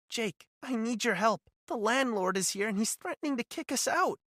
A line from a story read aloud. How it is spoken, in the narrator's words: she said, her voice trembling